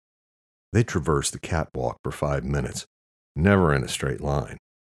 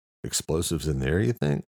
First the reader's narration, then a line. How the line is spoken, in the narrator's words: Luke asked